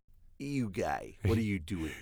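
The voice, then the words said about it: Imitates another person's voice, strained throat. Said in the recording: “I never could really do a good Mr. Panning impersonation. ... I don't know what's going on in the throat there.”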